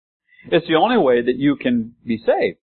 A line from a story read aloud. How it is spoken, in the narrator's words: Jonah cried